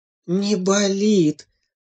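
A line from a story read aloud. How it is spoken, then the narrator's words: Relieved sigh. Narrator (Russian): облегченно вздохнула мама-зайчиха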